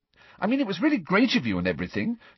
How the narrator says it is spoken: said Hermione quickly, looking positively petrified

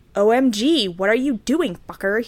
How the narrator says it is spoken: He shouted angrily

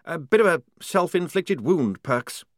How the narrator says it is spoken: he said nervously

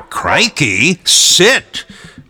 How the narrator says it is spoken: Brian said in a slightly deep tone

